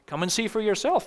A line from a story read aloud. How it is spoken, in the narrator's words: Philip replied